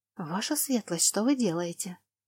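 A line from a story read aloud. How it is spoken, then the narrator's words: Frightened whisper. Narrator (Russian): Лана побледнев, зашептала мне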